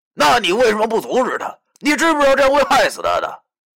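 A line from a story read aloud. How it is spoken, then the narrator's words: Panicked shout. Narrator (Chinese): 我忽然感觉到天好像要塌了，对着电话大喊道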